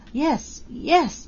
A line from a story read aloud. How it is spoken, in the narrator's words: she gasped